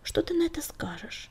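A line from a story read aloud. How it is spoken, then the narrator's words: Quiet question. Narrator (Russian): тихо спросил Клубок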